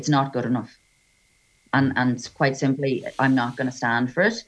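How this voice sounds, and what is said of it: Annoyed tone of voice. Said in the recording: “you can probably hear the annoyance in my voice”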